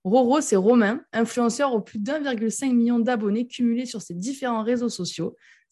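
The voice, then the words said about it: Regional French accent. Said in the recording (French): “J'entends ton accent, j'ai l'impression de partir en vacances”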